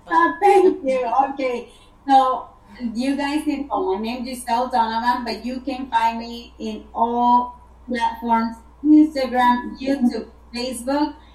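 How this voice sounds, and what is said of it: Speaks with a noticeable accent. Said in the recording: “I just love your accent.”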